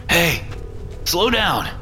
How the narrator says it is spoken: I called after him, wheezing

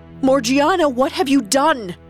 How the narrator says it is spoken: Ali Baba screamed, in disbelief and horror

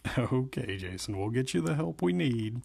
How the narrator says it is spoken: he said heartily

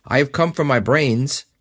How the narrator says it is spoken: remarked the scarecrow a little uneasily

